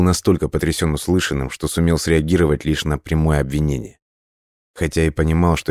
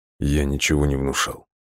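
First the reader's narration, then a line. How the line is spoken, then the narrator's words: Barely audible. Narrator (Russian): еле слышно произнес Лесков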